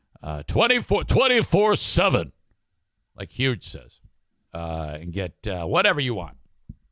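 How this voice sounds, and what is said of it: Impression of Huge. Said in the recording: “did an impression of Huge”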